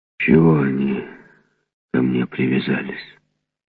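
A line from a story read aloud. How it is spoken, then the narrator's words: Young giant grumbling. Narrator (Russian): ворчал молодой гигант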